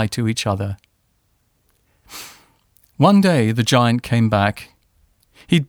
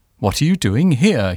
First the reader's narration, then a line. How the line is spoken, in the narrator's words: cried, in a very gruff voice